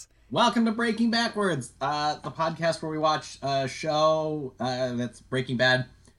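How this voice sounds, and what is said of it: Congested voice from a cold. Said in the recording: “I have a little bit of a cold”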